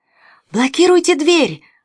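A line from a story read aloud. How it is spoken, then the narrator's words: Shouted out. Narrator (Russian): выкрикнул Лятуш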